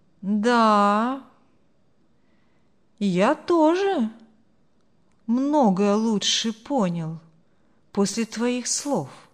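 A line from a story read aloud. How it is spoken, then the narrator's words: Slow speech. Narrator (Russian): медленно проговорил Марк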